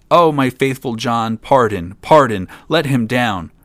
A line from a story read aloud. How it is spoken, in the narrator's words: cried the king